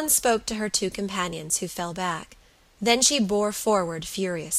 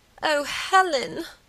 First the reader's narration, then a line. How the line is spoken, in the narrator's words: moaned Margaret